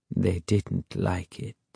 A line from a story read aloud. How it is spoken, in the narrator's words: he added quietly